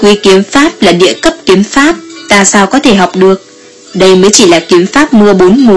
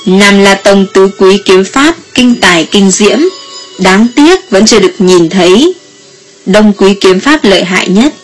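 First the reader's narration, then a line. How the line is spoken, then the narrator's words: Smiling. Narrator (Vietnamese): Diệp Trần mỉm cười nói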